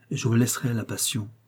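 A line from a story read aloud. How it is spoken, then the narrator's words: Murmuring. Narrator (French): murmurai-je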